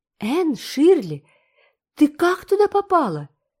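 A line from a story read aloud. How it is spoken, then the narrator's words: Exclaiming. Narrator (Russian): воскликнул он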